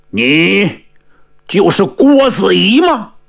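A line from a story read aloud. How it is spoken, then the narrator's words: Suppressed anger. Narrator (Chinese): 黄霸强压怒火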